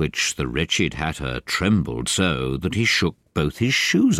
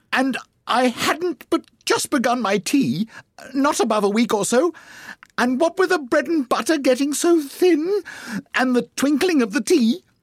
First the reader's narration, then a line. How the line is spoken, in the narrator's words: the Hatter began in a trembling voice